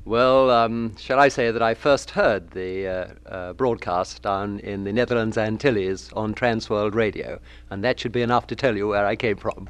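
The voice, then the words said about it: English accent. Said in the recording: “I think I'll let his accent tell for him ... We locate that accent as England”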